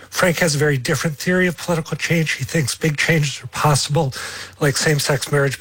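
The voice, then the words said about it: Hoarse, nearly lost voice. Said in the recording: “I've completely lost my voice.”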